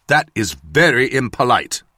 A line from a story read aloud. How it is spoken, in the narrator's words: Basil said